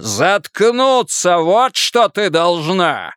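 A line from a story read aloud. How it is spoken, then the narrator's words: Furious roar. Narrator (Russian): взревел он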